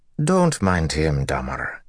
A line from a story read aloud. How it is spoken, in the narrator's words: she said in a lilting Mirandian accent